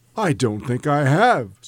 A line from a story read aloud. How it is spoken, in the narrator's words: said Scrooge